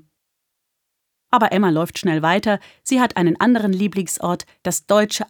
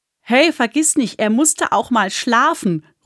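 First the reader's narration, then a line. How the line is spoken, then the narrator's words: Girl calling out. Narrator (German): ruft ein anderes Mädchen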